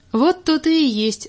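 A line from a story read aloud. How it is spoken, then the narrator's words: Loud laughter. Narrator (Russian): засмеялся Саша громко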